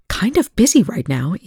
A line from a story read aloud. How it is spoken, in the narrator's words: Eli snapped